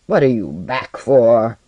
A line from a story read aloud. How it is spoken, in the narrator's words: he growled